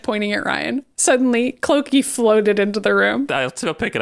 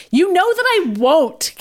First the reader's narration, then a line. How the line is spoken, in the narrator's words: Katie angrily snapped